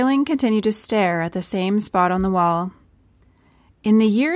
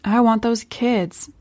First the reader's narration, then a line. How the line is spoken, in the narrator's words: said Wailing quietly